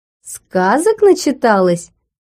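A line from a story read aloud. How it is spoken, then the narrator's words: Laughing. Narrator (Russian): рассмеялся Смарагд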